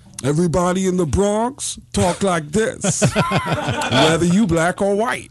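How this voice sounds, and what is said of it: Tracy Morgan impression. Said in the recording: “everyone in the Bronx sounds like Tracy Morgan.”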